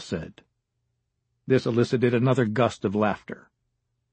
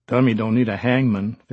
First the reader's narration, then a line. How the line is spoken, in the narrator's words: Fisher said